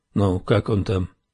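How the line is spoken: Plain. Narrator (Russian): спросил он

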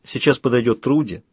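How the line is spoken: Plain. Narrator (Russian): сказала я Доку

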